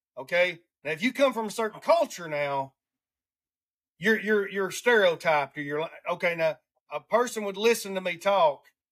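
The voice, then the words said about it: Southern US Alabama accent. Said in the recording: “I have a racist accent because I come from Alabama. Because I talk like a redneck.”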